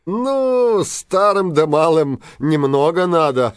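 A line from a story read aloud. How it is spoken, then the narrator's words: Laughing older man. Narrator (Russian): засмеялся старшина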